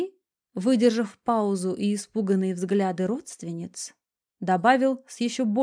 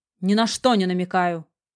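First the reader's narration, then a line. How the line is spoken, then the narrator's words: Sharp. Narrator (Russian): как-то резко ответил тот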